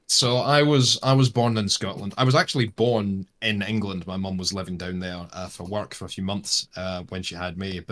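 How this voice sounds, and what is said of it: Blended Scottish-Australian accent. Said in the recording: “The accent's sort of a weird smush between, like, a lot of Scottish people are just like, really? And a lot of Australian people think that my accent's really thick, and then everyone else thinks it's somewhere in between.”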